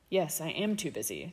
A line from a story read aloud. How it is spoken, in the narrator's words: Draco said, his voice even